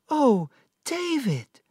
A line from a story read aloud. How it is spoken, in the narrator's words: Dora cried